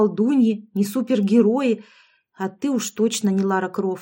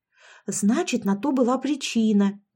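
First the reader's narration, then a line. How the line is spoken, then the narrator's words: Close hot-breathed whisper. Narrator (Russian): зашептала мне в спину Яшка, обдавая горячим дыханием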